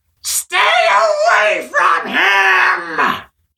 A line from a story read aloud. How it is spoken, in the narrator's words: He shrieked so loudly that Kuro wasn't sure he would ever hear properly again